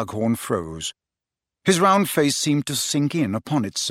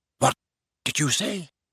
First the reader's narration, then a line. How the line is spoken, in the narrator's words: said hoarsely